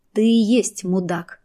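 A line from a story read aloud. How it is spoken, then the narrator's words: Sad smirk. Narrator (Russian): грустно усмехнувшись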